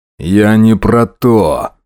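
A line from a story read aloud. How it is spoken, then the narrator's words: Growl. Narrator (Russian): рыкнул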